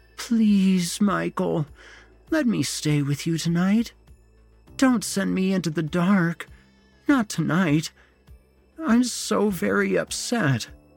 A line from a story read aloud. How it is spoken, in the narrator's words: moaned